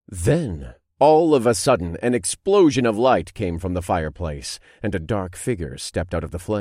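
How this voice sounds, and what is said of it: Usual voice. Nothing is said of it.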